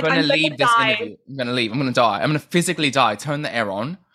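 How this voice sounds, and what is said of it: Put-on British accent. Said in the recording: “had the British accent”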